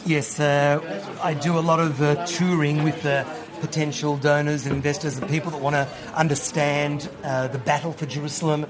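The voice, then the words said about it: Australian accent. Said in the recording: “As you can hear from his accent, ... was brought up in Australia”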